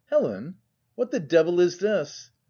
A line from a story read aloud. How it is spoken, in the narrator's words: in a tone of absolute terror exclaimed